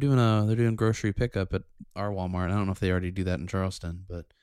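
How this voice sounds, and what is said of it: Usual voice. Nothing is said of it.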